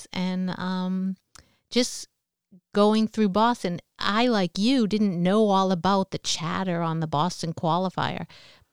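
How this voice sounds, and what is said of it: Slight South Boston accent. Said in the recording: “I have a little southern Boston accent there, Hull, Massachusetts”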